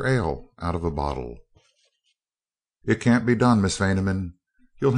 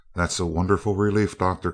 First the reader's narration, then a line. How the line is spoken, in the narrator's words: cried Dorothy